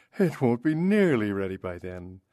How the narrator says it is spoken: she exclaimed

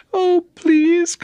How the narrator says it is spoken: cried the girl

